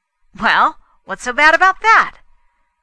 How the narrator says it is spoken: Fay broke in loudly

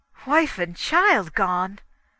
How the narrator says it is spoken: exclaimed O'Keefe

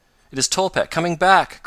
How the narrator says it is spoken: cried Mr

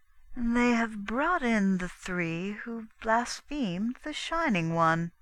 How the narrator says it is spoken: she said slowly

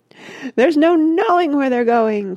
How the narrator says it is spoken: cried Mr

